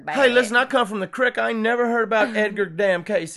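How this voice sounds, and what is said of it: Exaggerated put-on local accent. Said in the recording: “we're not mocking anybody with that accent, because we probably actually sound like that a lot”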